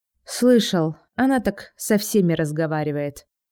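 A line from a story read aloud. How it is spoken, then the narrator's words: Tired reply. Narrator (Russian): устало отвечает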